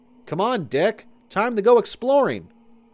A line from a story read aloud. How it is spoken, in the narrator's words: Anthony called out